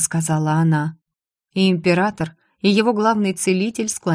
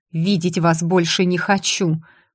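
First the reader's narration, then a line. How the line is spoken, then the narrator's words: Through gritted teeth. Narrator (Russian): процедила сквозь зубы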